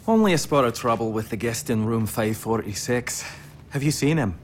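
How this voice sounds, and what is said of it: Put-on detective's accent. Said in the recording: “Then you have the perfect accent for the job.”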